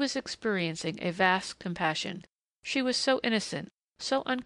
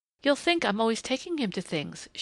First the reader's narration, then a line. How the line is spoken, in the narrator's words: she said brightly